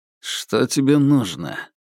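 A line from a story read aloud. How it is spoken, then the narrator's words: Dry, displeased. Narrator (Russian): сухо заметил Крысолов, недовольный тем, что зверька заметили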